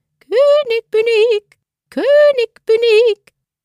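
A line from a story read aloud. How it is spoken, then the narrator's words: Small fine voice calling. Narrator (German): Der Kleine ohne Namen aber rief mit seiner feinen Stimme heraus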